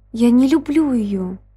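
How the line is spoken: Sharp cry. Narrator (Russian): вскрикнул он

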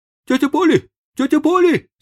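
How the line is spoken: Breathless shout. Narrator (Russian): закричал он, запыхавшись

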